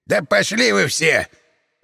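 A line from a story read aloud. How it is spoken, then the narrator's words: Booming bark, old man. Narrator (Russian): Зычно гаркнул дед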